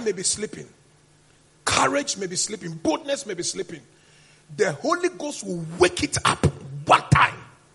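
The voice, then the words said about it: Screaming, loud preaching delivery. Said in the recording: “You see the way I'm preaching, I'm screaming?”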